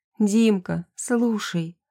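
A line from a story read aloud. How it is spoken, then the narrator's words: Soft, soothing. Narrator (Russian): Начинаю я тихо, как когда он был маленьким и не мог заснуть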